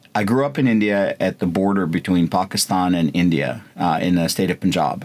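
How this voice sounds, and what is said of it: American English accent. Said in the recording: “I've got a U.S. accent while we're talking, but that's not necessarily always the case.”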